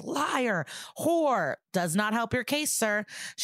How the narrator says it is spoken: Cole ... screams

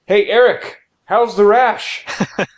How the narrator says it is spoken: I could shout across the room

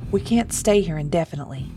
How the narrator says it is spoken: Thomas said, his voice firm

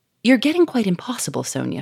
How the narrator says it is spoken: she cried

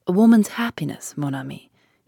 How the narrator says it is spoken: he said gravely

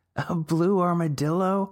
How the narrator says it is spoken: multiple girls laughed

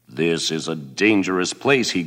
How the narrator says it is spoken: he growled

